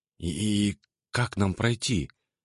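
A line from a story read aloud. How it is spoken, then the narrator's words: Soundless whisper. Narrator (Russian): прошептала она одними губами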